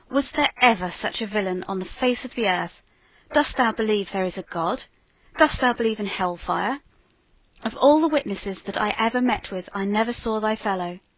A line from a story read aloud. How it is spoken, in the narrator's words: exclaimed the judge with an oath